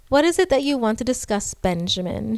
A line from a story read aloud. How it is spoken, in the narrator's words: She said coldly